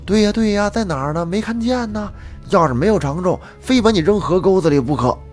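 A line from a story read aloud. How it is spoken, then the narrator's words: Noisy group clamor. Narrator (Chinese): 其他长工也是一块大呼小叫的说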